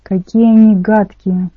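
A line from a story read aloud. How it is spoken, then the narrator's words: Breathless exclaiming. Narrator (Russian): выдохнула Рэйчел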